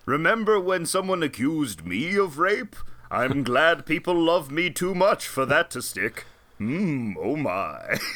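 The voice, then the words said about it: George Takei impression. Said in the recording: “Your George Takei is activated? ... George Takei. Everybody does a George Takei impression.”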